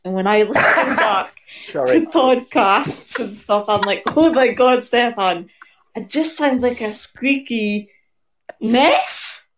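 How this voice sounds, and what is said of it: Scottish accent. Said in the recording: “I do love a Scottish accent ... You so sound Scottish ... You really do.”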